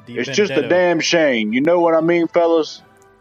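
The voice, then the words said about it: Voice sounding like Lou Holtz. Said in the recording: “This guy sounds like our buddy Jason Brownlow, who's an official doing a Lou Holtz impression ... Does that not sound like Lou Holtz to you?”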